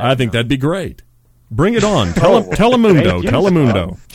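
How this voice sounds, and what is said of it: Booming announcer voice. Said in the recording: “doing announcer voice for the rest of the show”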